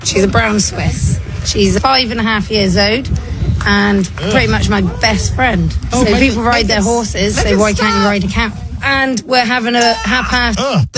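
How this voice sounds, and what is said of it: British accent. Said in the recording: “her disgusting British accent ... British ... British voices are, it's like nails on a chalkboard”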